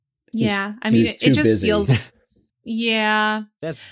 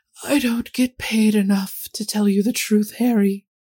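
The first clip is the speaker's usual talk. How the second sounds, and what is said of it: Good Dumbledore impression. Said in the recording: “the Dumbledore voice ... Dumbledore is actually very good.”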